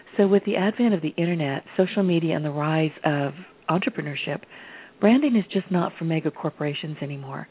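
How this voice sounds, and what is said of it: Raspy, rough voice. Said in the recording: “I'm raspy today ... My voice is a little rough today.”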